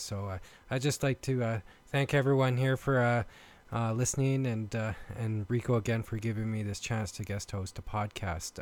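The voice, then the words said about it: Canadian accent. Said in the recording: “I've been told I have a uh, Canadian accent ... my Canadian accent slips through”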